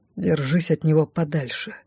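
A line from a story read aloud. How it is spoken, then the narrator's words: Whisper. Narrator (Russian): шепнул Артур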